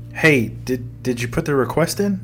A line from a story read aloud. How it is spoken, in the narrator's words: Eli stammered